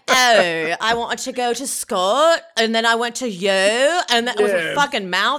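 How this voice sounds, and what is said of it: Imitated British Valley Girl accent. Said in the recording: “the UK equivalent of a Valley Girl accent ... her voice is so annoying ... it feels like a caricature almost”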